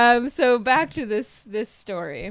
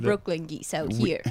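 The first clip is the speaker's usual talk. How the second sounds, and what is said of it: Put-on accent. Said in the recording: “She had to do the accent right on.”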